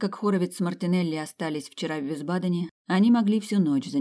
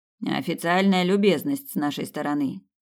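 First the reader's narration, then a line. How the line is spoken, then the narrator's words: Grumbling. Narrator (Russian): пробурчал ван Нистельрой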